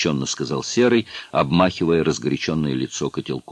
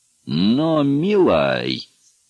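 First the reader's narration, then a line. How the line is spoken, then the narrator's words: Drawling call. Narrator (Russian): протянул Хват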